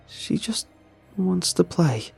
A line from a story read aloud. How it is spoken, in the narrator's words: the mother sobs